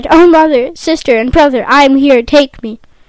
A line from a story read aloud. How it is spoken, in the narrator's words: cried